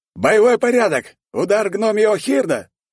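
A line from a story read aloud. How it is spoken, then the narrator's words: Shouted command. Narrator (Russian): выкрикнул команду тысячник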